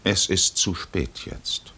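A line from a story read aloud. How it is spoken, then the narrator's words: Calm stranger. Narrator (German): Der Fremde sagte ruhig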